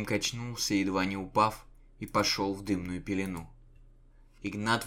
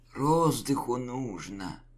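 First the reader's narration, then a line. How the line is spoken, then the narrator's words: Hoarse wheeze. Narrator (Russian): просипел Яшка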